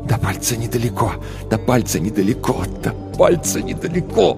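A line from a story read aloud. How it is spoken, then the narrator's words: Repeated whisper, like incantation. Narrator (Russian): Тил шептал одну и ту же фразу, словно заклятие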